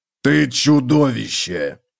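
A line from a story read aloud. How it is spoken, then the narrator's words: Growl. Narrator (Russian): прорычал Готрек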